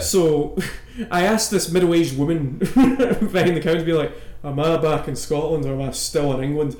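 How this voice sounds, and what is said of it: Thick Scottish accent. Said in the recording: “the accent comes out pretty thick ... As if it isn't already pretty fucking thick ... a Scotsman”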